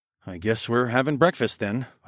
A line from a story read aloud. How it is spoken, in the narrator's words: I muttered